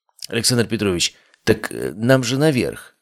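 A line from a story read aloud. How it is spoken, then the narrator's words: Confused mutter. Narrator (Russian): растерянно пробормотал Кузьма Никитович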